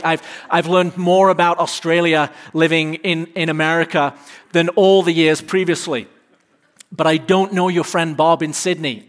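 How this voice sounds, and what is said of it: English accent. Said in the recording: “My accent is not subtle... I'm from England”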